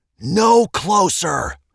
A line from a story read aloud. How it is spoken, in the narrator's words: shouted